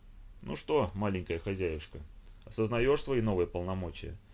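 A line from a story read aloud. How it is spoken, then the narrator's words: Tired question. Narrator (Russian): Устало спросила у Тины Райли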